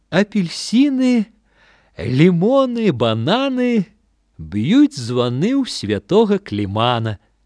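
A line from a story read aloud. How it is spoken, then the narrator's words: Sheepish smiling addition. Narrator (Belarusian): Ён вінавата усміхнуўся, быццам адчуваў, што кажа нешта смешна, і дадаў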